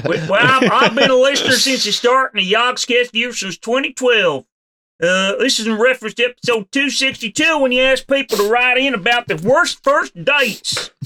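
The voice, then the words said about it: Goofy put-on hillbilly accent. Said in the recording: “please do your best hillbilly accent for this ... It's goofy ... I can hear it ... I can hear the lack of teeth in your mouth”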